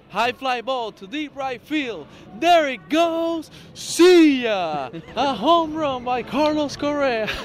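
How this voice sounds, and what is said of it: Michael Kay play-by-play impression. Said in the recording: “Got the Michael Kay down really well.”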